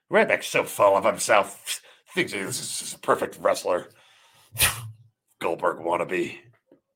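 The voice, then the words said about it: Imitates another person's voice. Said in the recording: “That was my Jeffrey impersonation.”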